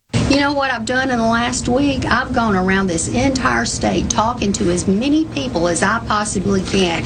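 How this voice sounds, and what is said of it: Southern American accent. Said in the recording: “the timbre of her voice and her Southern accent”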